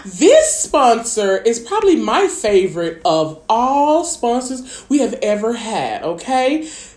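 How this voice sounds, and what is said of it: Polished professional announcer voice. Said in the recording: “get in my professional voice”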